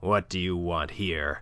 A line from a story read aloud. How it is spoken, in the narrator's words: growled Monsieur de Kercadiou